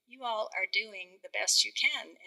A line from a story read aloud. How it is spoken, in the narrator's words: my mother ... she laughed as she said